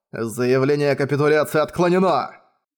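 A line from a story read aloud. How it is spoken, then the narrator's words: Growl. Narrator (Russian): прорычал Манхао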